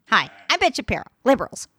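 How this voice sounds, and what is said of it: Nasal, read-off-paper impression. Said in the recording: “You just kind of talk in a nasally voice, like you stuff up your nose, and then you talk like you're reading something written off a paper ... I do a great impression of Ben Shapiro”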